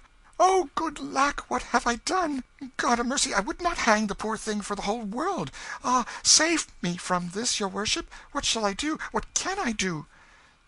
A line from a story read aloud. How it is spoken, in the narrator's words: shaking with fright, and cried out